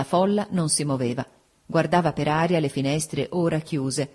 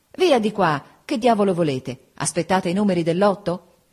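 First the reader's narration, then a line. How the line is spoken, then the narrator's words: Impatient exclamation. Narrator (Italian): spazientito, esclamava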